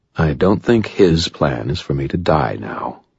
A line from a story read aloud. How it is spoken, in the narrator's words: he replied calmly